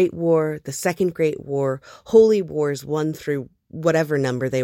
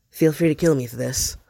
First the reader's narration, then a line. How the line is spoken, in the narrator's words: Hob mutters to the immortal